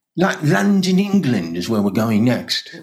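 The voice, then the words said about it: Mediocre put-on British accent. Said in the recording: “that's a mediocre British accent, I have to say. But you'll get better.”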